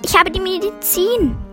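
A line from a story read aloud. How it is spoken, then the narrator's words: Calling out. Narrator (German): rief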